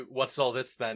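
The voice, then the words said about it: Stereotypical lowbrow British accent. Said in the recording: “in a stereotypical lowbrow British accent.”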